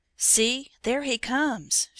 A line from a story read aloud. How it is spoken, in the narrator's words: she cried in sudden terror